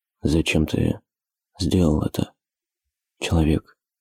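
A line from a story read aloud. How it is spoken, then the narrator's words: Quiet whisper. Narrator (Russian): Тихо прошептал он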